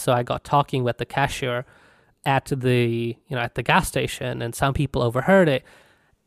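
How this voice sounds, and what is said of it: Non-American accent. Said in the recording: “it's quite noticeable from my accent that I'm not from the U.S.”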